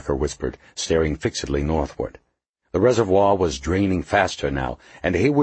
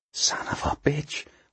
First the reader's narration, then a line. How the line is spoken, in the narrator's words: Horlocker whispered